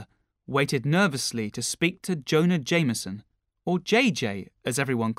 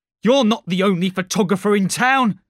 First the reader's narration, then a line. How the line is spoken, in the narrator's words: shouted